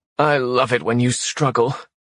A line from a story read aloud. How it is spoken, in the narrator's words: she said, her voice laced with venom